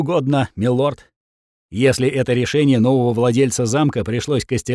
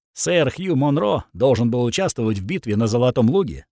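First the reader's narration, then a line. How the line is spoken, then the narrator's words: Plain. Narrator (Russian): сказал сэр Гант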